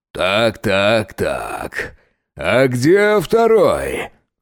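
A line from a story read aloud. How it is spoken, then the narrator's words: Booming bass declaration. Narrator (Russian): гулким басом заявил Громила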